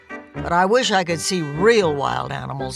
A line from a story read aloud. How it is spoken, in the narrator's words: grumbled